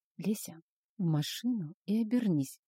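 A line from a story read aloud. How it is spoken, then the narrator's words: Soft whisper. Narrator (Russian): тихо шепнул Арс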